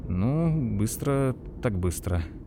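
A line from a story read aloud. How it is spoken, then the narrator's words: Muttering. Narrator (Russian): пробормотал Лойс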